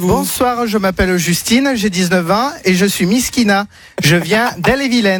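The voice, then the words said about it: Put-on accent, playing a girl. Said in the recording (French): “Pourquoi il prend cet accent?”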